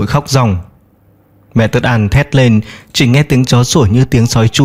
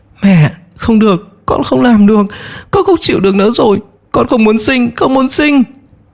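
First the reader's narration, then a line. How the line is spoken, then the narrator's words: Crying, desperate. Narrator (Vietnamese): Mẹ Tất An khóc lóc nói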